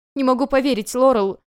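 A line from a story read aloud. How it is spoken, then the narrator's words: Sobbing over crackling radio. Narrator (Russian): сквозь потрескивание рации рыдает Элизабет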